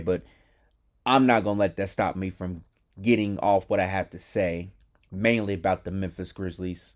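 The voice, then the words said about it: Compromised, allergy-affected voice. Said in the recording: “my voice sounds compromised. My allergies are in full effect”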